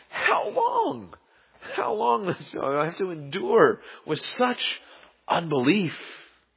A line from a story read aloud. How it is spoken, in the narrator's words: he cries out